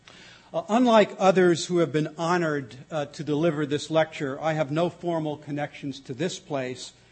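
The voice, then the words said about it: New York accent. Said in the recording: “I'll revert to my native New Yorkese”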